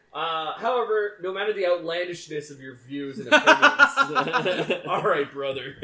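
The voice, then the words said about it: Put-on Texas accent. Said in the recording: “nice Texas accent.”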